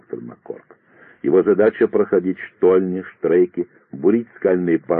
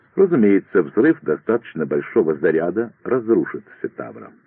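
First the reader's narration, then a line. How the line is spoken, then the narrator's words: Calm, matter-of-fact. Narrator (Russian): продолжал Маккорк, спокойно, словно говорил о самых обыденных вещах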